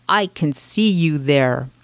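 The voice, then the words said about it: Big scary mom voice. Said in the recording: “in my biggest scary mom voice”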